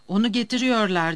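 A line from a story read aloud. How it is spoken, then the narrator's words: Crying out. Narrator (Turkish): diye haykırarak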